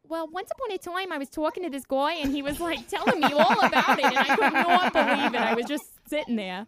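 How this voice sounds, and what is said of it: Put-on Long Island accent. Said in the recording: “talk in your Long Island voice.”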